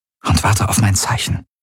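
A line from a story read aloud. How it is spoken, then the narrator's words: Murmuring. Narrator (German): murmelte sie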